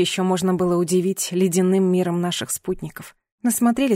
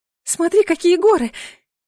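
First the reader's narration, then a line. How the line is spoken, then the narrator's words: Excited squeaky woman. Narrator (Russian): Восторженно пропищала женщина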